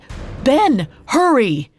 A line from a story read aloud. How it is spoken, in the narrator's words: Sumulael shouted